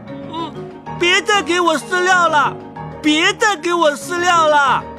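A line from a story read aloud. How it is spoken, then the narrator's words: Shouting with all strength. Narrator (Chinese): 使出全身的力气叫喊起来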